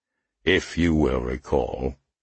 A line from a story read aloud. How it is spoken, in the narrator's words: he rumbled